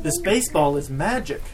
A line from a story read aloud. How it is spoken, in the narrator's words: exclaimed